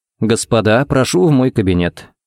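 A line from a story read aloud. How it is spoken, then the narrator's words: Calm invitation. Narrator (Russian): пригласил спокойно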